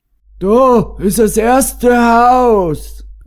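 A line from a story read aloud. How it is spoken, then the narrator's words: Called out. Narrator (German): rief Matthias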